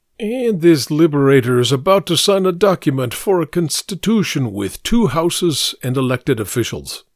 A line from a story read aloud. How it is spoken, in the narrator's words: Vladimir snorted as he said